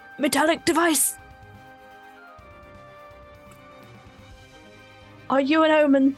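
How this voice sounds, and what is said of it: Loud shouting voice. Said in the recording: “How loud do you shout that? ... I can only shout in a shouty voice. It's gonna be loud.”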